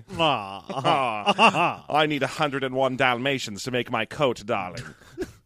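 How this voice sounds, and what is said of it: Posh North Atlantic accent. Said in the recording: “I think I just made it to flat A, like I was doing some sort of North Atlantic accent.”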